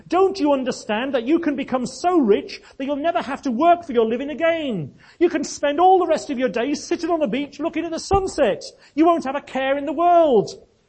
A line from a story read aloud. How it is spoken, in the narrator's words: red in the face now with rage, shouted